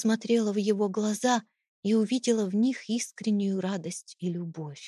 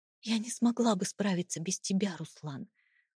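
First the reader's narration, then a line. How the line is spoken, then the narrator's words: Tearful whisper. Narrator (Russian): прошептала я, чувствуя, как слезы снова подступают к глазам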